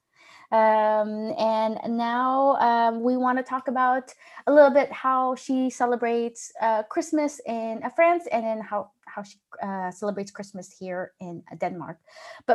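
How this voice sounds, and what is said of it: American accent. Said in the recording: “I have such an American accent.”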